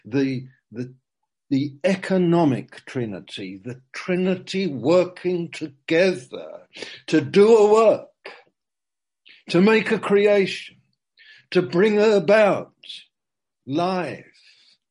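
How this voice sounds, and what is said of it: Loud, shouting preacher delivery. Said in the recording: “I'm shouting,”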